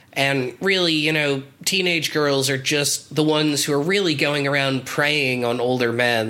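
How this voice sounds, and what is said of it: Sarcastic tone of voice. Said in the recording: “in case it's not clear from my tone of voice, this is stupid and I hate it”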